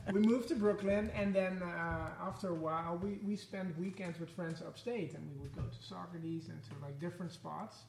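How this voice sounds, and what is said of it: Dutch accent. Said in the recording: “we can tell from your accent, you're not from here ... my accent is from Holland. So I'm from the Netherlands in Europe.”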